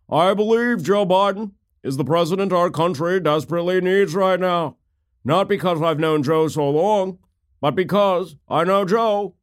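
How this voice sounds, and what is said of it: John Kerry impression. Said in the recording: “I do a fairly good John Kerry impersonation”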